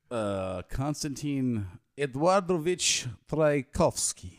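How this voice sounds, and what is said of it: Put-on Russian accent. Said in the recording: “If you add the Russian accent, anything sounds good.”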